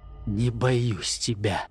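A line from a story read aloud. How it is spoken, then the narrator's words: Whisper. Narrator (Russian): прошептал он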